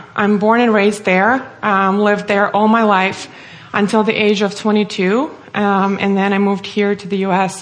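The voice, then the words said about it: Russian accent. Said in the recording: “as my name and accent may give away, I'm originally from Russia”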